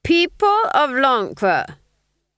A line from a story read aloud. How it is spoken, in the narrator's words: cried